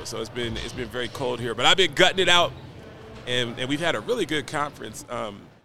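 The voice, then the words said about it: Slightly raspy voice. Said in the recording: “My voice is a little raspy because I'm from Nashville, Tennessee, and it doesn't get down to 19 degrees”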